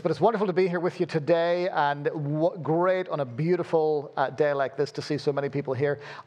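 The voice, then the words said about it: Mixed accent with Belfast roots. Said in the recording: “Forgive my weird accent. Born in Belfast, lived all over the place, so you end up with a weird accent like this”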